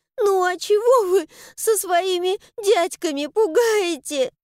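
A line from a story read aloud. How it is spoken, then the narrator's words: Broken sobbing. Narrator (Russian): Рвано всхлипывает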